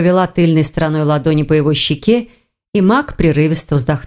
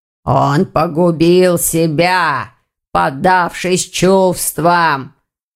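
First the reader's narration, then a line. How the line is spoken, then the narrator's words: Hoarse voice. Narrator (Russian): хрипло сказал Вардван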